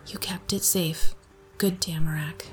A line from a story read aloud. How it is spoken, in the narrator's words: muttered under my breath